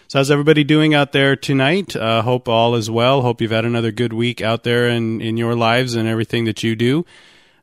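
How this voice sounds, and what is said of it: Scratchy, rough voice. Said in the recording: “Apologize for the voice a little bit. I still got this whatever it is that's been hanging on for a couple of weeks ... the voice still sounds pretty scratchy and rough a little bit”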